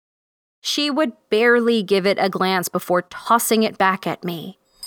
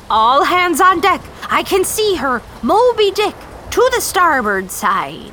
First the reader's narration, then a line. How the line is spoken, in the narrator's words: Captain Ahab was shouting